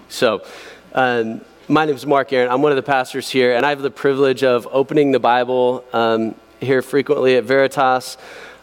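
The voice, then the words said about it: Hoarse, weakened voice. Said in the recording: “This week, I lost my voice, and so I've got a little tea up here.”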